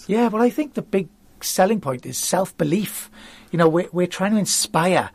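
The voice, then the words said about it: Welsh accent. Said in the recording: “from Wales, if you haven't already guessed, listeners ... this Welsh accent ... you're very good at a Welsh accent”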